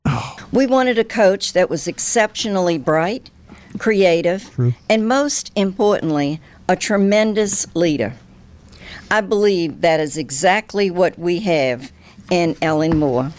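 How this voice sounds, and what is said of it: Louisiana accent. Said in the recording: “I do love the accent, though. Like, true Louisiana.”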